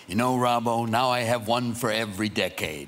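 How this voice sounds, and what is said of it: Imitates another person's voice. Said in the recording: “Great impression, by the way ... Really, the best. Everyone does a Jack. That one's the best.”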